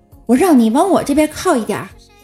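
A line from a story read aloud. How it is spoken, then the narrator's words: Shout. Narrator (Chinese): 他就吼了我一句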